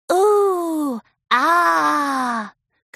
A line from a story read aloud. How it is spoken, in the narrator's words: cooed Pinky, her smile widening in genuine delight